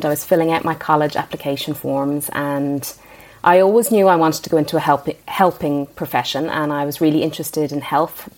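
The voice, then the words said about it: Irish accent. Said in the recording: “your very cool accent, I can listen to the Irish accent all day”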